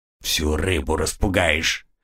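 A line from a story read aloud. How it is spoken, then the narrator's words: Gruff mutter. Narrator (Russian): буркнул он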